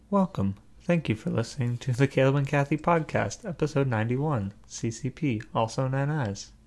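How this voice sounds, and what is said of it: Robot voice. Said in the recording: “I was trying to do my robot voice.”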